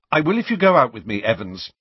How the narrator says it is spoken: said James quickly

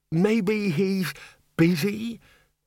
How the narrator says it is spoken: Eventually the bursar quavered

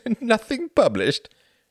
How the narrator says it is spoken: Reginald laughed

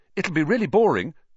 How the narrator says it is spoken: Harry said quickly

